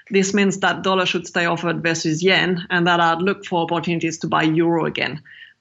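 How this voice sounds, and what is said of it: French accent. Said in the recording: “it's pretty obvious from your accent, our listeners have figured out that you're French”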